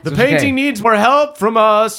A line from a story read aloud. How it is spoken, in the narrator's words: Uncle Andrew shouts